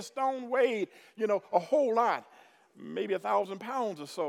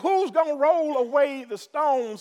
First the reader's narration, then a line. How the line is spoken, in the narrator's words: the women shouted